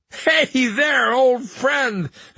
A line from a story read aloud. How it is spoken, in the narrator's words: the young man said, laughing